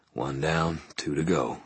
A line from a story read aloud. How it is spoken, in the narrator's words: he murmured